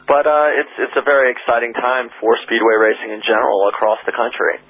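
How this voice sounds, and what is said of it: American Midwestern accent. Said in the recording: “by your accent, we can tell you're not a South Australian ... you come from ... Indianapolis”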